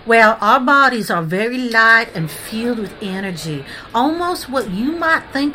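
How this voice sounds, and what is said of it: Southern American accent. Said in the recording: “the body that I'm in that's got the southern accent, that's why that accent is coming through.”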